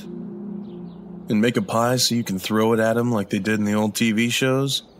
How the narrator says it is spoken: I laughed

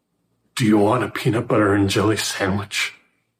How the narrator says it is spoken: the voice croaked

